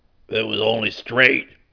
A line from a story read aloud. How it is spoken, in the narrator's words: growl